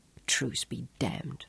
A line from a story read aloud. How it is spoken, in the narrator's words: muttered furiously